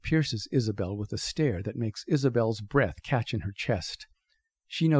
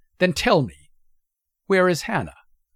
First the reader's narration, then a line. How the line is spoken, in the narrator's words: Schrödinger's Isabel goes on, her voice pointed and sharp, ready to strike